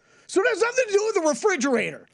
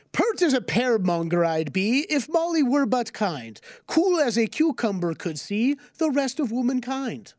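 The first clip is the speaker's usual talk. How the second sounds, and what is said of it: Theatrical put-on accent reading verse. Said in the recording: “you should go into business doing that accent. That was fabulous.”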